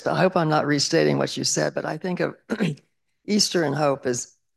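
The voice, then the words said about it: Impaired, rough-sounding voice. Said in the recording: “excuse my voice”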